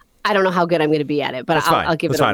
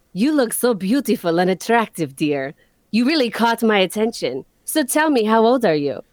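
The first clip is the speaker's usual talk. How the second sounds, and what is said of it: Bad put-on Russian accent. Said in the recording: “I need a different voice for this ... I need to give this man a bad Russian accent”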